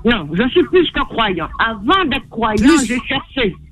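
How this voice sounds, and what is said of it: Slight Guadeloupean French accent. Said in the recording (French): “tu as un léger accent qui m'est pas inconnu, que j'adore ... Est-ce que tu ne serais pas de cette belle île ... en Guadeloupe”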